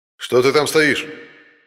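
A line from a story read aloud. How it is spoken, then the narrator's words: Booming loudspeaker-amplified voice. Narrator (Russian): прогремел под сводами тоннеля, усиленный громкоговорителем, голос полицейского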